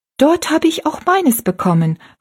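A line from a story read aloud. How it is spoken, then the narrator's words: Calling out. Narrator (German): rief Rosalie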